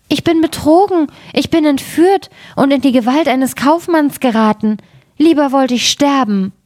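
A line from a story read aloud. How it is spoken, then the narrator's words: Frightened cry. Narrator (German): rief sie erschrocken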